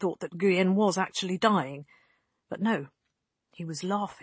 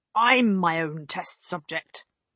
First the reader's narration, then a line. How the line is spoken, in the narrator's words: Guyen growled